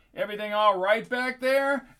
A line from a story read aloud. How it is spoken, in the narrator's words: He shouted out the driver's window